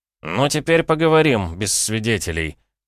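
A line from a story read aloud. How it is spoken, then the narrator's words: Amused snort. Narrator (Russian): хмыкнул я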